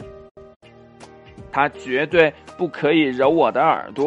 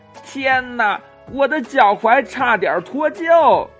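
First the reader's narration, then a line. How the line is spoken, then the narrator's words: Crying out in pain. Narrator (Chinese): 尤西疼得直叫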